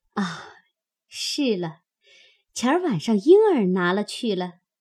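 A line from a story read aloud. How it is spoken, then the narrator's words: Absent-minded, then laughing. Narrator (Chinese): 一面说着，一面出神，想了一会儿，方笑道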